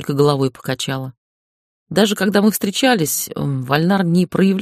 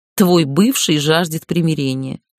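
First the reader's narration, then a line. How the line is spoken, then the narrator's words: Scornful snort. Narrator (Russian): фыркнула Лэм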